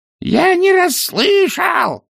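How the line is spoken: Roaring, lost in wind. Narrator (Russian): проревел цветок, но и его голос унесло порывом ветра

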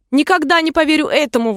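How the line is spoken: Exclamation. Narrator (Russian): воскликнула голубка

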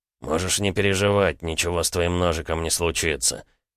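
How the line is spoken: Dry tone. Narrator (Russian): сухим тоном произнес квадрат

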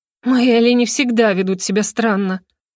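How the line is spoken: Gloomy remark. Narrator (Russian): мрачно заметила я

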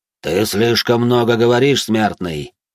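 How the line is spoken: Demonic growl. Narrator (Russian): прорычал демон

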